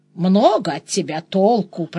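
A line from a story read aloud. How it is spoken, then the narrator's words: Grumbling. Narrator (Russian): проворчал Денис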